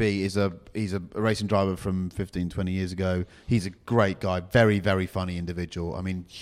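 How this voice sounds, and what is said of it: Usual voice. Nothing is said of it.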